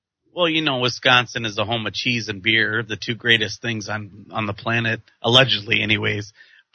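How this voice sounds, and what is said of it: Wisconsin accent. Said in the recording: “I have a sexy voice as well and an accent. It's a Wisconsin accent”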